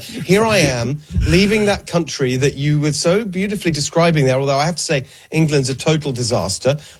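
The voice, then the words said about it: English accent. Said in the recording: “I still have the accent”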